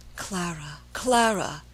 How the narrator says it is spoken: he murmured in a low, pleading voice

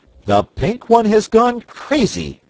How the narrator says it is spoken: exclaimed

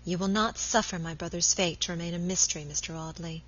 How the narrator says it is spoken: she said quietly

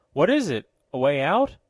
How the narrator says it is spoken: asked Lieutenant Marbury anxiously

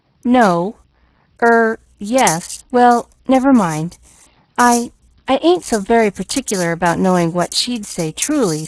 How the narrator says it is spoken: stammered Nancy

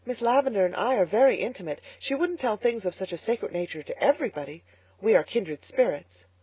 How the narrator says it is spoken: she explained hastily

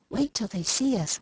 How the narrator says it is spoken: whispered Demi

